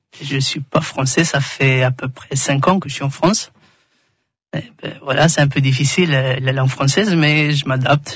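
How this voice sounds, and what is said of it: Slight Albanian accent in French. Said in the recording (French): “avec ce petit accent, t'es de quelle origine ... je viens ... d'Albanie.”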